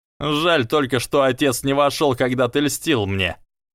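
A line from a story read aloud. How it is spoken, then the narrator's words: Laughing. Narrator (Russian): рассмеялся он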